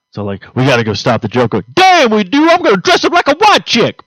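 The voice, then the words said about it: Poor Wayne impersonation. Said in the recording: “That was a horrible Wayne impersonation”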